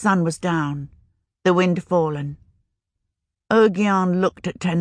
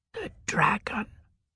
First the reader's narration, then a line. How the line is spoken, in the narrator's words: He whispered once, hesitant, as if unsure